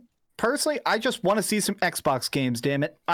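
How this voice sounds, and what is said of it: Usual voice. Nothing is said of it.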